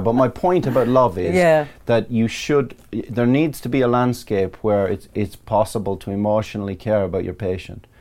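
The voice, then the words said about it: Irish accent. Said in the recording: “It's the Irish accent”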